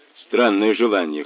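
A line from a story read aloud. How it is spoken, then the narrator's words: Wry snort. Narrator (Russian): хмыкнул Мазур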